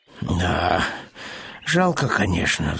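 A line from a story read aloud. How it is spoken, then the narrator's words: Sighing. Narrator (Russian): вздохнул Пэтсон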